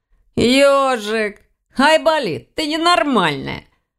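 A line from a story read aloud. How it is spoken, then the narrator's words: Laughing. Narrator (Russian): рассмеялся Ваня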